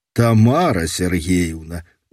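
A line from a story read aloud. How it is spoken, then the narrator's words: Smiling. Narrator (Belarusian): усміхнуўся я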